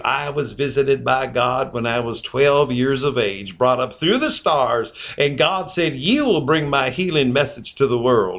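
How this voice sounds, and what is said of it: Southern accent Ernest Angley impression. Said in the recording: “he would come on in his voice, and he had that southern accent.”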